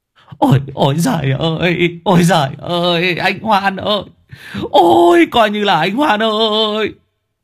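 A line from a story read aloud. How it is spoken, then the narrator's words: Sobbing wail. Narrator (Vietnamese): ông Trường bế đứa con trai chạy vào sân mếu máo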